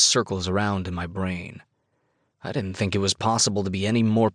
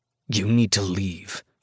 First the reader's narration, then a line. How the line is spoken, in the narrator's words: I growl